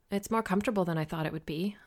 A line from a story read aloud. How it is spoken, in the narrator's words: I murmured, grateful